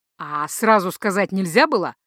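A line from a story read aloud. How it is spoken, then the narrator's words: Growled. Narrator (Russian): рыкнул Гархайт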